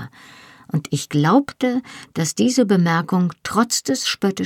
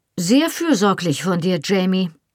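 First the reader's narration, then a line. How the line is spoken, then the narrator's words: Replied dryly. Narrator (German): entgegnete Colum trocken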